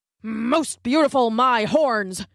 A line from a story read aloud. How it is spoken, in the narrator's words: grunted a wildebeest